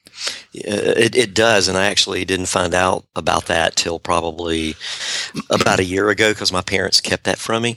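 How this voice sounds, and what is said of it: Southern US accent. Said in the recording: “You are the first marketing book author with a Southern accent to appear on the show.”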